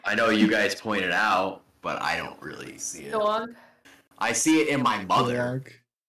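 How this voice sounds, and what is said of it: Noticeable New York accent. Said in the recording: “you're from New York, you have a weird accent ... Yours is just heavy enough to notice.”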